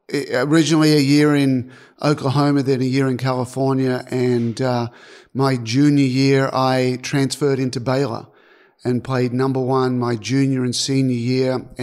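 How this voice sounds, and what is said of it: Australian accent. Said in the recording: “With that accent, there's no chance you're from here. So you're Australian, is that right?”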